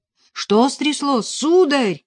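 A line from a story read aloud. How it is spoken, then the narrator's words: Priest shouting. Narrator (Russian): выкрикнул отец Модест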